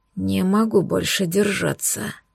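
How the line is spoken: Hoarse wheeze. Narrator (Russian): прохрипел

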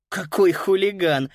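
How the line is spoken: Laughing. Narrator (Russian): рассмеялась Фрида

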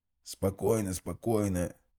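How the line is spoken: Heavy rasp. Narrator (Russian): тяжело прохрипел парламентер

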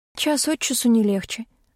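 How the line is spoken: Sighed. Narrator (Russian): вздохнула я

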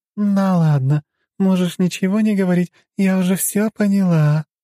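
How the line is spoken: Cooing secretive whisper. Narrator (Russian): проворковала она и прошептала так, чтобы ее не смог услышать Хмельников

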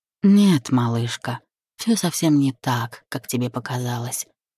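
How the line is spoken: Sighing reply. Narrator (Russian): вздохнув, отозвался Денис

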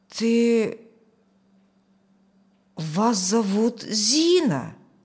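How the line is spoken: Forced, nearly certain. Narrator (Russian): Почти утвердительно выдавил он

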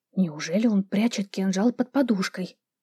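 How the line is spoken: Incredulous whisper. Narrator (Russian): недоверчиво прошептала я

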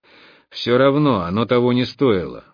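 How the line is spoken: Grumbling. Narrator (Russian): буркнул я

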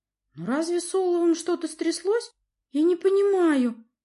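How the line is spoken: Pleading. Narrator (Russian): взмолилась она

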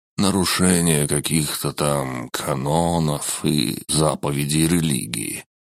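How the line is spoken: Sighed. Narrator (Russian): вздохнул Кельель

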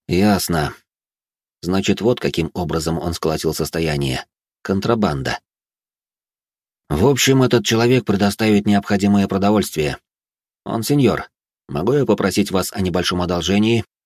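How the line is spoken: Plain. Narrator (Russian): спросил я Бриана

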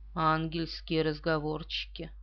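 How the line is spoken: Grumbling. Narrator (Russian): Пуаро пробурчал

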